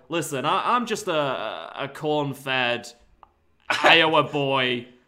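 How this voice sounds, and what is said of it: Really strong put-on accent. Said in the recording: “You put like a really strong accent.”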